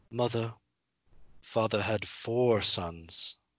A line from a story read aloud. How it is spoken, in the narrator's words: Rob gently said to his mother